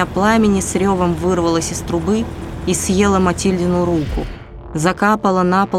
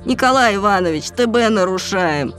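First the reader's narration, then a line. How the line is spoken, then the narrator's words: Wounded policeman's moan. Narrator (Russian): простонал, держась за намокающий черным бок, полицейский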